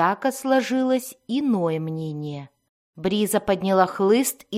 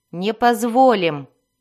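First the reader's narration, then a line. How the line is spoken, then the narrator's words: Snapping. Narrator (Russian): огрызнулась Бриза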